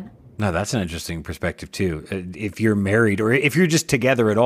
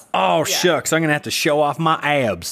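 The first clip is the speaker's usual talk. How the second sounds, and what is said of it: Put-on Arkansas accent. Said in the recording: “That's also my Arkansas accent.”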